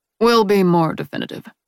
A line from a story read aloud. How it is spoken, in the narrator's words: he says flatly